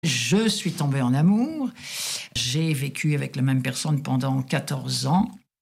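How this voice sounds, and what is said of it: French accent. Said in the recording (French): “mon accent français”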